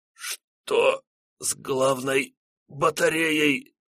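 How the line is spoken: Halting strained words. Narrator (Russian): По частям выдавил из себя Григорьев

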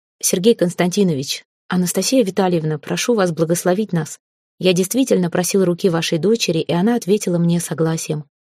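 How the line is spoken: Calm. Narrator (Russian): спокойно заговорил Эрелив

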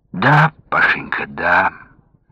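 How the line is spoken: Muffled, hollow voice. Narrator (Russian): глухо проговорил Александр Сергеевич

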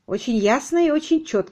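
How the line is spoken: Plain. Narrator (Russian): сказала она

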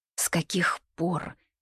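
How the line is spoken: Quiet question. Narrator (Russian): тихо спрашиваю я

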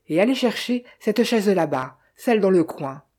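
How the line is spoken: Curt, dry. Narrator (French): fit-elle sèchement

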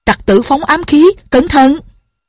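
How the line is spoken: Shouting, alarmed women. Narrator (Vietnamese): la lên

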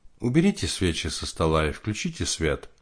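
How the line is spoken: Calm command. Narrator (Russian): Светлана спокойно приказала

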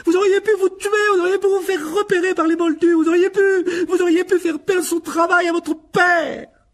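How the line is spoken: Prolonged yelling. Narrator (French): Elle sembla hurler ainsi pendant des heures

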